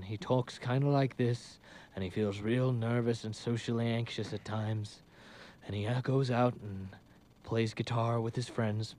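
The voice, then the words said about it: Not very good Johnny Depp impression. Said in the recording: “The Johnny Depp impression ... I don't think it's a very good Johnny Depp impression”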